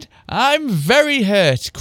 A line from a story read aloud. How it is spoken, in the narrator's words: cried Anthem, trying to hold her laughter